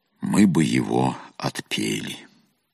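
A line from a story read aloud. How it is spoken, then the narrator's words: Calm reply. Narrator (Russian): отец-наместник спокойно ответил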